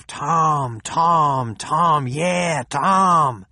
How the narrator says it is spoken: the stadium echoed to the roar of

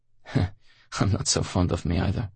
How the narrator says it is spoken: Leonid chuckled

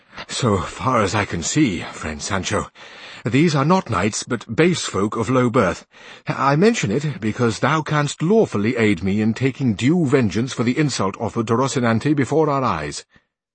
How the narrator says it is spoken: came up panting, and said Don Quixote to Sancho

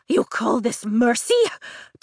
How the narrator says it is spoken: Takaris asks through gasped breaths

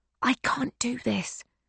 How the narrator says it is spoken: Josie whispers

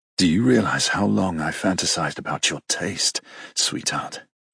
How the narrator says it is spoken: He grunts deep in his throat

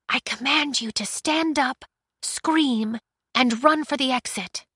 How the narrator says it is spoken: Aiko whispered

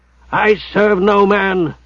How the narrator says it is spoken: shouted Hugh

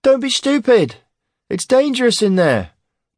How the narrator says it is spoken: pleaded Ham, who was kind-hearted and quite fond of Aaron

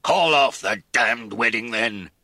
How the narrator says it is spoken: he roared

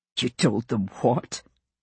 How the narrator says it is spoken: He snorted with amusement

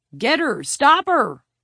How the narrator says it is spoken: Murphy yelled

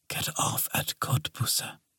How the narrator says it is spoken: one of them, a woman, whispered softly

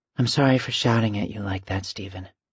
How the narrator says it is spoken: she said quietly

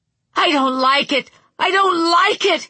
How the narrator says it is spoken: shouted

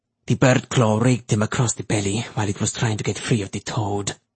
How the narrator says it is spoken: Carvalho said grimly

